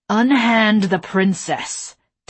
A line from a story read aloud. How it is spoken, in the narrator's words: Tavish growled